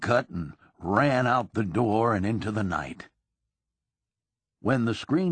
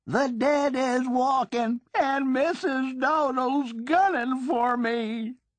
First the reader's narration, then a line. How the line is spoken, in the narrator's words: Wilcox was on her feet hollering